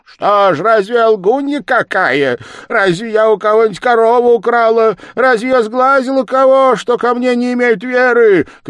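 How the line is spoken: Shouting woman. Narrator (Russian): кричала баба

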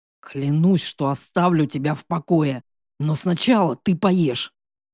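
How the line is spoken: Growled. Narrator (Russian): прорычал Матвей

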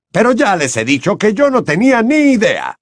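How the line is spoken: Heartfelt shout over din. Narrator (Spanish): gritó Bagman de todo corazón por encima de la algarabía

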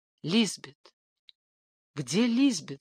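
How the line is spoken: Hoarse whisper. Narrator (Russian): спросил он хриплым шепотом

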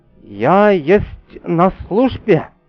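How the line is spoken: Trembling proud answer. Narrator (Russian): Дрогнувшим голосом гордо ответила храбрая австриячка

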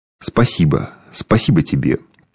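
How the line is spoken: Quiet. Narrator (Russian): тихо вымолвила она

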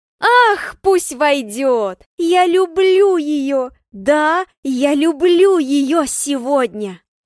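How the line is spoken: Loud shout. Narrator (Russian): Кричу я громко

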